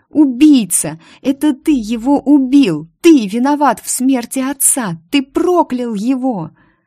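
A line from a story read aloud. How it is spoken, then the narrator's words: Shocked shout. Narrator (Russian): Петруша страшно побледнел и закричал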